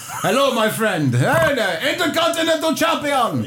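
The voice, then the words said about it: Put-on Indian accent. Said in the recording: “if I'm doing an Indian accent ... Sounded like the Iron Sheik to me”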